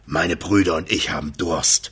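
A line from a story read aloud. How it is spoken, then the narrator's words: Leader growling. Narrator (German): knurrte der Anführer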